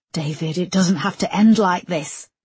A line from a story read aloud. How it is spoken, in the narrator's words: gasped Erica through the pain